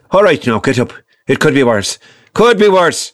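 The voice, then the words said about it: Northern Irish accent impression. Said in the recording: “my other grandfather who was from Northern Ireland, so his accent was a little different”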